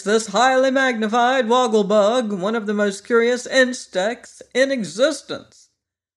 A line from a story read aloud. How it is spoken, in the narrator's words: cried the professor in a loud voice